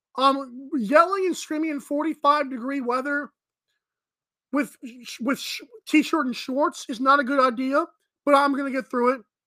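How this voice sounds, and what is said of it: Hoarse, strained voice. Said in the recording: “I actually lost my voice. I was a little under the weather today.”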